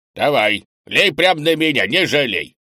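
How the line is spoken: With a snort. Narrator (Russian): Кенни хмыкнул

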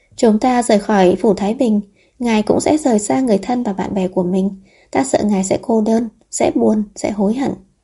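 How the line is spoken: Worried sigh. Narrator (Vietnamese): Địch Khương thở dài lo lắng nói

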